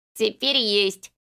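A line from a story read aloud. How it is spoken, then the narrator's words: Giggled. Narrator (Russian): хихикнул Рафа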